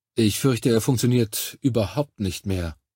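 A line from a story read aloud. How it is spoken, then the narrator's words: Plain. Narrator (German): sagte der Doktor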